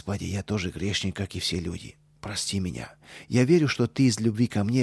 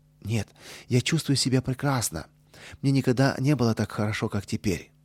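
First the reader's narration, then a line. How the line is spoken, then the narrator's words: Cheerful reply. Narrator (Russian): весело ответил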